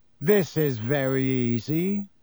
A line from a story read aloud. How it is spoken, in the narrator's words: Malfoy drawled loud enough for Harry to hear him